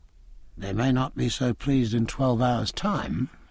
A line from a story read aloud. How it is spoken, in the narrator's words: said Jack in a low voice